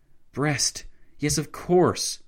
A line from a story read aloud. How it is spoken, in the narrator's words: Lloyd George exclaimed